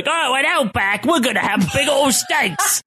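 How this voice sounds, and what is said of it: Put-on Outback commercial accent. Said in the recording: “In that voice... speaking in that accent.”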